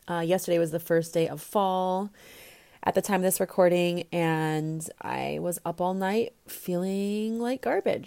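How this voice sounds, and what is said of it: Congested voice from a cold. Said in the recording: “tell in my voice, I have a cold.”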